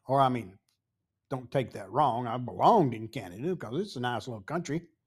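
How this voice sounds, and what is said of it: Southern US Tennessee accent. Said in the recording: “You're from Tennessee ... as we would say here in the South. They knew by my accent that I didn't belong in Canada ... my accent made me stand out in a lot of places”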